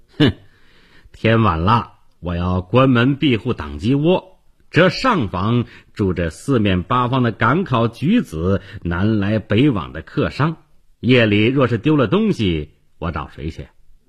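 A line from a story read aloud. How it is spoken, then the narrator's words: Sneering shopkeeper. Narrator (Chinese): 店主冷笑一声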